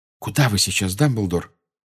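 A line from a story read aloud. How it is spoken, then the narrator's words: Whisper. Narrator (Russian): прошептала МакГонагал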